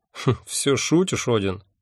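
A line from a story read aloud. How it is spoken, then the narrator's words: Scoffing. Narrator (Russian): хмыкнул он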